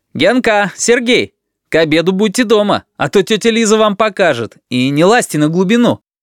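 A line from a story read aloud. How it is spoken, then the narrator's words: Shouted. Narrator (Russian): крикнул Саша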